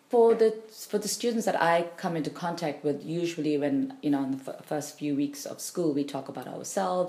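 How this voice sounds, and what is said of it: British-sounding accent. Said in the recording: “my accent is more British”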